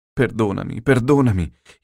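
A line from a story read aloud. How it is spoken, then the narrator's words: Insistent pleading. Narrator (Italian): insistette, supplicò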